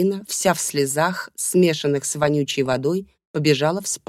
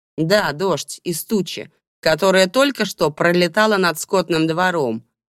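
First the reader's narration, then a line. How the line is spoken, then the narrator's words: Rude reply. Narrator (Russian): грубо ответила Белла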